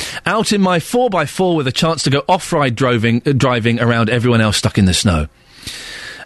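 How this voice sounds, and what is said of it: Usual voice. Nothing is said of it.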